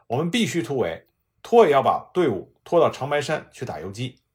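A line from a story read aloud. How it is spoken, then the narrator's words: Sharp reproach. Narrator (Chinese): 香乃光厉声的责问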